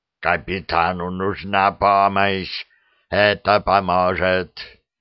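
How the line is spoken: Growling. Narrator (Russian): прорычал Клыканини

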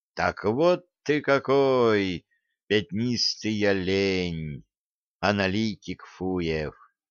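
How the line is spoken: Sad joke. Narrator (Russian): грустно пошутил

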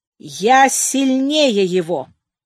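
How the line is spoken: Loud voice. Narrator (Russian): проговорил громким голосом

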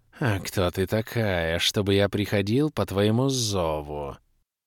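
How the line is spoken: Cold hiss. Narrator (Russian): прошипел холодный голос

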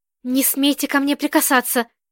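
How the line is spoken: Shout. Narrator (Russian): крикнула Ирина

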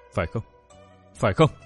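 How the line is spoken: Muttering. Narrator (Vietnamese): Nàng vẫn lẩm bẩm

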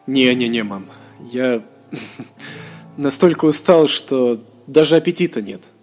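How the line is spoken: Laughing. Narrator (Russian): засмеялся Мируэль

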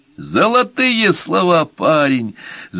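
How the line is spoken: Yelling. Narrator (Russian): завопил Техас Толстяку

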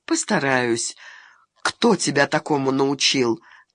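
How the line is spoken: Sighing. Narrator (Russian): Таня вздохнула

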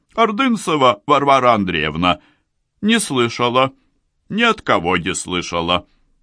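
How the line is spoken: Brisk old woman's voice. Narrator (Russian): совершенно бодрым голосом старуха ответила

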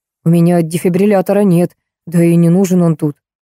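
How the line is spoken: Gloomy explanation. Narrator (Russian): мрачно пояснил врач

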